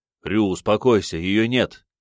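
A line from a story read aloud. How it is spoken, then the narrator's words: Impatient shout. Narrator (Russian): крикнул ему, желая уже наконец получить хоть какие-то ответы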